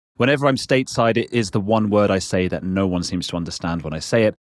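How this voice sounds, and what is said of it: British English accent. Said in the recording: “when I say water, that's just my accent ... we Brits”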